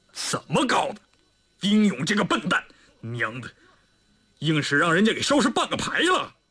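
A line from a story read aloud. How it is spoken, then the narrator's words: Angry and embarrassed. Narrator (Chinese): 李云龙终于有些恼羞成怒了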